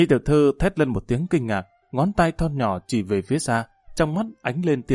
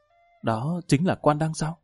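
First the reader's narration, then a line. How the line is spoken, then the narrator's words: Soft voice. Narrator (Vietnamese): Đại tiểu thư khẽ giọng nói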